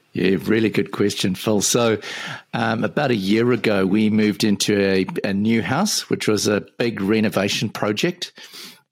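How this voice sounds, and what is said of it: Mixed New Zealand–South African accent. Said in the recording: “it's a very interesting Kiwi accent... Yeah, bit of a mixture... living in Auckland, New Zealand, but I'm originally from Johannesburg in South Africa”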